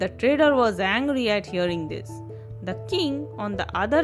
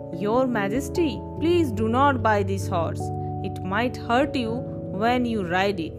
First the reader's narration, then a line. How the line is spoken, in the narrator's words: the blind son calmly said to the king